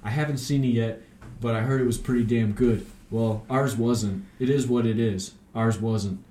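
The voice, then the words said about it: Imitates another person's voice. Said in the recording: “my bad Mark Wahlberg impression”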